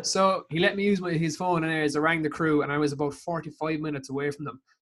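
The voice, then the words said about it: Irish accent. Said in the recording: “What's the story of the accent? ... I'm from Ireland”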